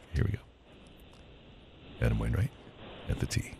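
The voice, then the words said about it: Golf broadcaster narration voice. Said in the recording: “I was doing my golf voice ... I'm a broadcaster, man”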